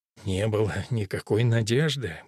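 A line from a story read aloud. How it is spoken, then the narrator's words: Mumbling. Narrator (Russian): бормочет отец Гарсия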